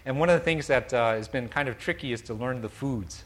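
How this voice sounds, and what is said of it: Non-native English accent. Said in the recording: “As some of you may guess from my accent, I'm not from here.”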